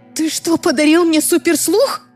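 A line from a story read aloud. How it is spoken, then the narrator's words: Frightened yell. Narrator (Russian): заорала я испуганно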